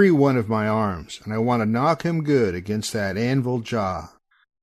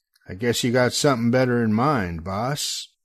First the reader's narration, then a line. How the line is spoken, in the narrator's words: I growl back